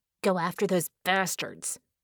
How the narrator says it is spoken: she snarled

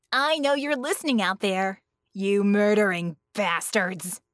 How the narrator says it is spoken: she growled

